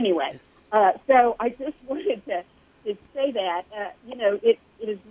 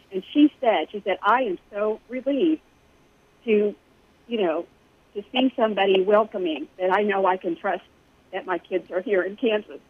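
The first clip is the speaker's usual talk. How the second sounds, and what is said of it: Emotional, voice breaking. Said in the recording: “I don't know why I'm getting emotional.”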